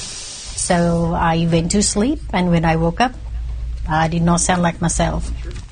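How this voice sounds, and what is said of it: Speaking with an unusual accent. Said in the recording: “her accent ... she was speaking differently”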